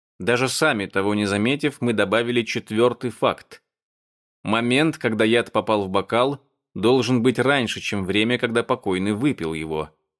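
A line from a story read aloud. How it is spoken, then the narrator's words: Plain. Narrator (Russian): сказал Фан Чен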